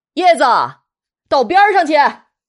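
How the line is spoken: Distant adult shout. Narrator (Chinese): 有大人远远的看见了，就喊

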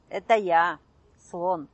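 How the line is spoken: Plain. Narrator (Russian): ответил голос

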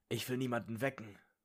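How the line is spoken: Murmur. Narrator (German): murmelte Ron

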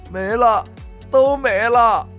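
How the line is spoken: Crying louder, wife. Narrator (Chinese): 老婆一会儿哭的声音更大了，说道

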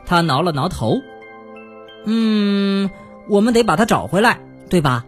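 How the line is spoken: Plain. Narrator (Chinese): 他对咯咯小姐说

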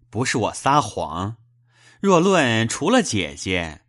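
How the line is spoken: Laughing. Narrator (Chinese): 贾琏笑道

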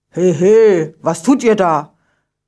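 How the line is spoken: Calling to children. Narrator (German): ruft er den Kindern zu

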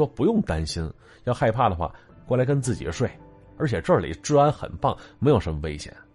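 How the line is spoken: Smiling. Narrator (Chinese): 小仓笑了笑，说

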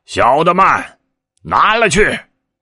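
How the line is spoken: Shouting. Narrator (Chinese): 叫道

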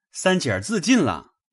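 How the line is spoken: Servant clamoring. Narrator (Chinese): 忽有家中小厮吵嚷

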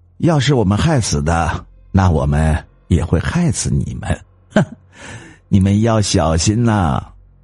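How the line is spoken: Laughing. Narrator (Chinese): 王美丽的老公笑着说

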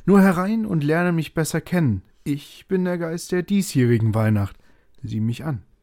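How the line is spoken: Ghost calling out. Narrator (German): rief der Geist

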